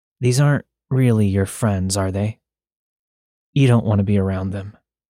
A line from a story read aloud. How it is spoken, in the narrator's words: He said in a gravelly voice